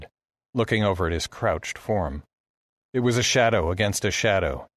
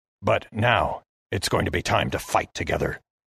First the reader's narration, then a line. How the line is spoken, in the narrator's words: hissed